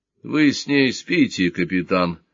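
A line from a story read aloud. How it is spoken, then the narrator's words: Tired question. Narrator (Russian): устало спросил Сварог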